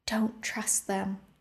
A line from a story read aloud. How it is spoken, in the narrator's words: Rune whispered